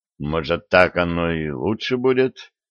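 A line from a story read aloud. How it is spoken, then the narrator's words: Muttered, young man. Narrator (Russian): пробормотал юноша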